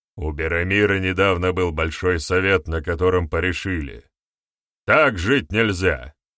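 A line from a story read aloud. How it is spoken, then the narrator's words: Loud. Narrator (Russian): громко произнес Барята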